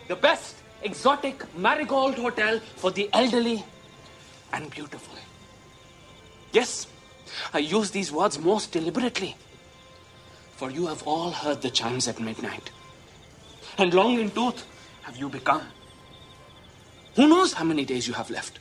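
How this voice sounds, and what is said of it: Comedic character voice, put-on accent. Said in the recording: “That's a different accent ... It's a comedic creation”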